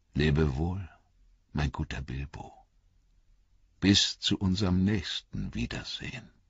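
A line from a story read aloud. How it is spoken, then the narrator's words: Quiet. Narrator (German): sagte er leise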